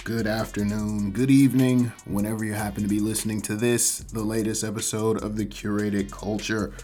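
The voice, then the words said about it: Voice slightly off from illness. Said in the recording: “my voice is still a little bit off ... with sickness”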